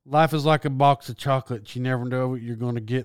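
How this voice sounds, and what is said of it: Poor Forrest Gump impression. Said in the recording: “That's the worst Forrest Gump ever ... that's the worst Forrest Gump impression ever”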